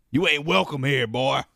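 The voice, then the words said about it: Put-on Southern US accent. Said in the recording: “I don't know why we're doing Southern accents for Newark, Delaware.”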